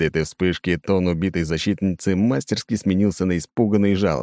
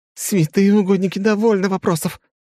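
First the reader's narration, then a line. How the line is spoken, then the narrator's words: Sobbing. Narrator (Russian): натуралистично всхлипнула мертвая девушка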